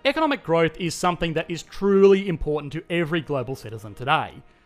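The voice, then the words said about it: Australian accent. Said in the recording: “the sweet, supple sound of my Australian accent”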